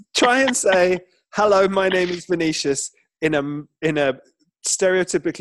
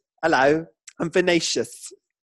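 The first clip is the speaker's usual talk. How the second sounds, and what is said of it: Camp, flamboyant voice. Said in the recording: “your voice just naturally goes ... it's a camp name ... it sounds camp”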